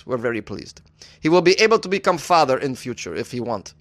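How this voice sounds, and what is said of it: Put-on Ukrainian accent. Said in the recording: “I thought it was a pretty good Ukrainian accent... that's a pretty good Ukrainian accent. I'd say I give it like a 6.5.”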